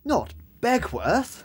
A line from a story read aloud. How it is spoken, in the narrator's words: gasped Rix